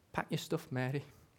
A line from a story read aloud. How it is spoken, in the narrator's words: told her gently